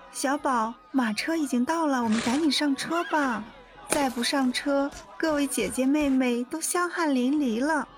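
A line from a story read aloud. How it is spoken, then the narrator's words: Soft, gentle. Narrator (Chinese): 阿珂柔声道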